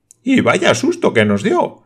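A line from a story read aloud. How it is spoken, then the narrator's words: Exclaimed. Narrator (Spanish): exclamó el hermano Sib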